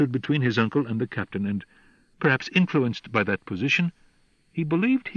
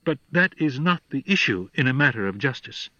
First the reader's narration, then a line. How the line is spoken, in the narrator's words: said Carl